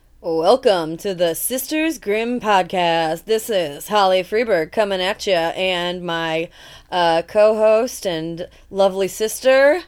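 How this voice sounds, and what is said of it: Announcer-style radio voice. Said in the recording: “Your radio voice is really on point today.”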